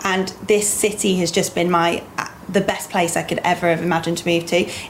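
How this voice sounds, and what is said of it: Non-local accent. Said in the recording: “as you can tell from my accent, I'm not originally from here”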